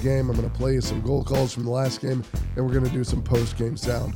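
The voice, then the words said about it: Hoarse, strained voice. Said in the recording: “As you can hear, I'm still dealing with some laryngitis”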